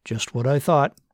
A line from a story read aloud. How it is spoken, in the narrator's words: Martin said in his best dispassionate doctor voice